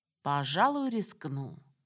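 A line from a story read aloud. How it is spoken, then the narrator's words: Purring. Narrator (Russian): мурлыкнул он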